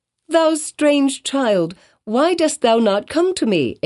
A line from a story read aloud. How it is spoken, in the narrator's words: exclaimed Hester